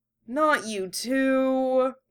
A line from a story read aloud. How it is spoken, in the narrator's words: Yusuke groaned